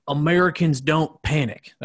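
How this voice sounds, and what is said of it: Joe Biden impression. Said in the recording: “That's the best Biden impersonation I can do. I don't know how to sound like an old person that has a stroke.”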